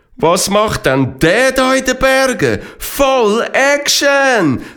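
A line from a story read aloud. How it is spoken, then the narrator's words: Excited calling out. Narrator (German): rief der Esteban begeistert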